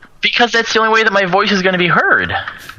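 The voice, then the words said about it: Loud, raised voice. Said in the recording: “So loud about everything ... You can tone it down a bit.”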